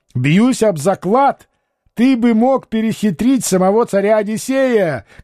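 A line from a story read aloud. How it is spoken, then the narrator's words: Shout. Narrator (Russian): кричал Чамберс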